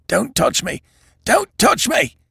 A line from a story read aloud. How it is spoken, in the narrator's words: said Evans in a stifled voice